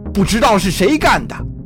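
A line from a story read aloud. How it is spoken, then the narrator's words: Shouting. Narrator (Chinese): 一名工程师嚷道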